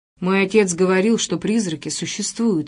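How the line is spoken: Plain. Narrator (Russian): ответил мальчик

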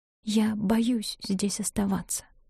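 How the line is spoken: Whispered confession. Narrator (Russian): призналась Нина шепотом

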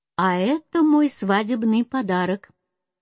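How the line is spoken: Cheerful reply. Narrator (Russian): отвечал ей весело принц

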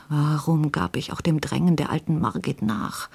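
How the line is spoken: Muttered to himself. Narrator (German): murmelte vor sich hin

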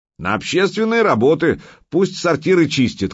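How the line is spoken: Shouted. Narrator (Russian): крикнул кто-то

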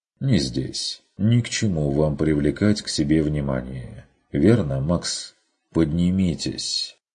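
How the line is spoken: Repeating. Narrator (Russian): Повторил он

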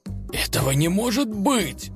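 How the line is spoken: Confused mutter. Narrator (Russian): растерянно пробормотал

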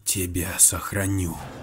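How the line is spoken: Fervent whisper. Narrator (Russian): Истово шептала она

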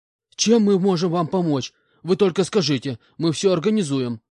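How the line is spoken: Trembling voice. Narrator (Russian): дрожащим голосом ответил полковник

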